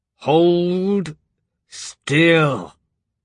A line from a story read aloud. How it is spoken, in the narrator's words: the man grunted through clenched teeth